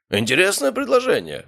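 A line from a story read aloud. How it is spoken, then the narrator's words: Skeptical snort. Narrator (Russian): хмыкнул Обухов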